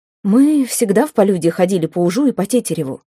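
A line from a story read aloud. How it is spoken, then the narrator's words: Plain. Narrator (Russian): сказала она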